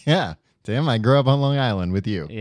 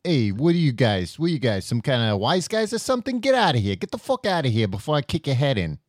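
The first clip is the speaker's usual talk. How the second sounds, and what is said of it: Put-on Italian-American tough-guy accent. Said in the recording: “your impression of an Italian-American person ... My Italian-American?”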